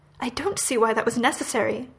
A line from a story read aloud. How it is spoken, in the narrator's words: Aziraphale snaps